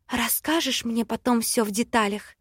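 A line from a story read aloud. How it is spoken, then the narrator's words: Whispered. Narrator (Russian): зашептала я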